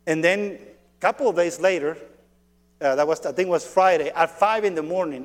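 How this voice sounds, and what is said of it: Thick accent in English. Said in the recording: “your accent is so thick in Spanish. Yes, yes. In English too”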